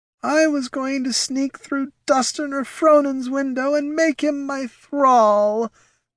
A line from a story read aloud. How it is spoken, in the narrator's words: wailed the spirit of Battelle